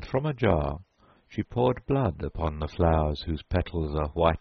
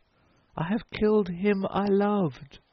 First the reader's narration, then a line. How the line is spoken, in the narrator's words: Far afield a woman cried